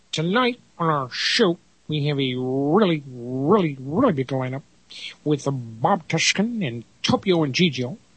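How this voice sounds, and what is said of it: Imitates another person's voice. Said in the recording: “my Ed Sullivan imitation”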